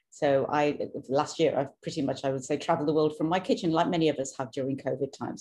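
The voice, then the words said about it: British accent. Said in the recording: “you'll hear my accent is British, born and brought up in the UK”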